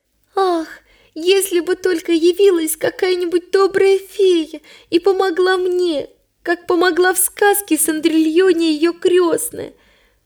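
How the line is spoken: Sobbing. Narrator (Russian): повторяла я сквозь рыдание

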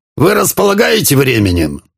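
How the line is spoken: Chuckling. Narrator (Russian): Голицын хохотнул

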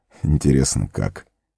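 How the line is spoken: Tired wry chuckle. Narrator (Russian): устало усмехнулся Гэндальф

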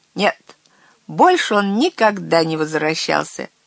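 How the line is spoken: Small ghost giggling. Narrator (Russian): хихикнуло маленькое привидение

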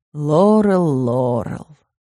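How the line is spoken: Mock sigh. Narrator (Russian): притворно вздохнул он

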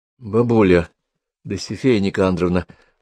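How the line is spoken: Timid objection. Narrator (Russian): робко возразил Тимка

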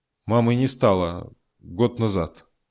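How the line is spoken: Quiet child's voice. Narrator (Russian): тихо произнес мальчик

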